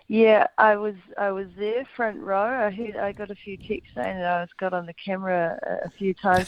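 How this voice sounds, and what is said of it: Raspy, hoarse voice. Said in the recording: “That's why I'm sounding a bit raspy, I think, this morning.”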